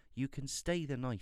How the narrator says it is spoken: he said

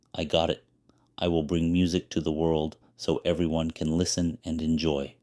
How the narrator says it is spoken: said the wind

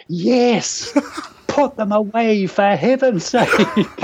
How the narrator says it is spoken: my female friend finally shouted

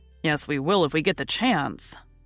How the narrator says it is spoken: muttered Lori rebelliously

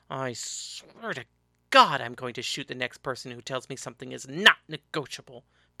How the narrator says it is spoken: Paris grumbled

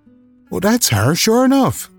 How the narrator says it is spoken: she exclaimed

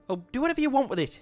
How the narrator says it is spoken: shouted at him

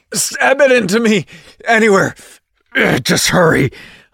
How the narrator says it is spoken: grunted out

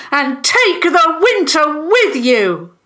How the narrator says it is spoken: the Fentons yelled

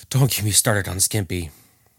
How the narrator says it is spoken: the boss rolled his eyes and softly said

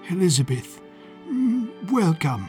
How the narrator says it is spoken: Sir Shanley replied, in his breezy English voice

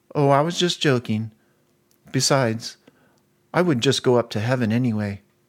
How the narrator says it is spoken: In a nonchalant tone, she replied

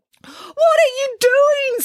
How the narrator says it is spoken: screamed Headmaster Pimplestock

